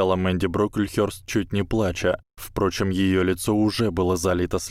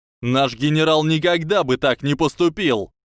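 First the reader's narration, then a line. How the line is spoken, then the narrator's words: Very loud yelling. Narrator (Russian): Кевин Энтвистл орал даже громче Мэнди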